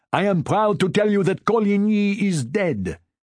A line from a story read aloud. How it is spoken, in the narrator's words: he shouted